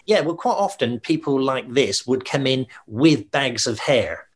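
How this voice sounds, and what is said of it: West Country English accent. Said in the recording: “Lovely West Country accent.”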